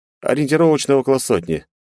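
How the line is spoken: Calm reply. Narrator (Russian): спокойно ответил Альмарил

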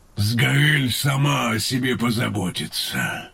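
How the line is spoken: Hoarse. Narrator (Russian): хрипло произнес Тейрн

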